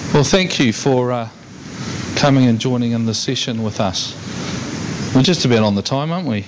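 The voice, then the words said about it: New Zealand accent. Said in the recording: “my accent ... I'm from the better place, New Zealand”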